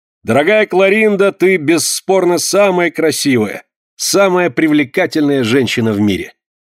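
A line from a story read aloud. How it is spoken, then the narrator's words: Loud. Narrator (Russian): он громко произнес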